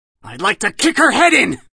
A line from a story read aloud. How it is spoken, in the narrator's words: he screamed